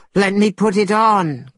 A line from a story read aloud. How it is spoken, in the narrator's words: cried Monkey